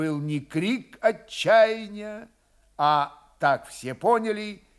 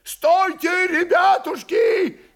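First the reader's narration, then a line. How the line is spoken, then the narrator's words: Shouting. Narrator (Russian): кричал воевода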